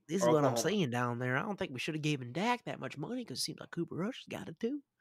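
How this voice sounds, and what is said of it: Jerry Jones impression. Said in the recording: “a good Jerry impression out there in Jerry world”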